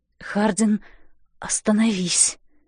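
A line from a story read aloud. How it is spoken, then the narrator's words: Strange low hoarse voice. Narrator (Russian): говорю я чужим, низким и хриплым голосом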